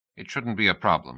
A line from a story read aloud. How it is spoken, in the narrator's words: he said